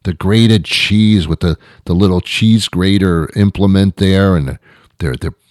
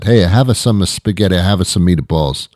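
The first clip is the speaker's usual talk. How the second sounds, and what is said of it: Put-on Italian accent. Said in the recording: “that Italian accent”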